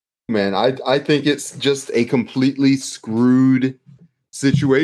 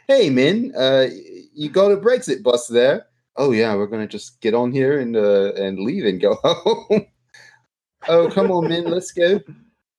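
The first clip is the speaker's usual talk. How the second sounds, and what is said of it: Attempted New Zealand accent. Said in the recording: “I don't know how to do the Kiwi accent, except you say men instead of man.”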